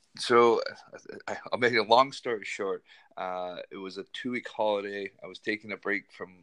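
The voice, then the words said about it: Non-Scottish accent. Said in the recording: “by your accent that you're not a native Scot”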